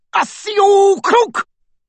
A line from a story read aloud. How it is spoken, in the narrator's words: roared one of the Death Eaters